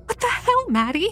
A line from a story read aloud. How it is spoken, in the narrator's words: Leah cried